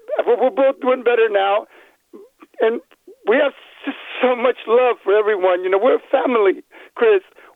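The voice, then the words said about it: Slightly lost, hoarse voice. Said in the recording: “I kind of lost my voice a little bit”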